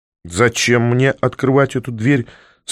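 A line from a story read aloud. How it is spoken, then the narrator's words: Mocking question. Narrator (Russian): спросил насмешливо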